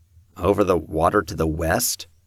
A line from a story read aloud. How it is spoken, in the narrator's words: Peter murmured